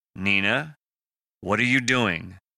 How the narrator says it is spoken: Parker said calmly, mimicking her cadence

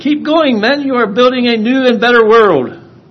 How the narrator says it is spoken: in the middle of a battle and he hollered

